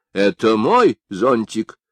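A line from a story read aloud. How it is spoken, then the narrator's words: Stern. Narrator (Russian): сказал он строго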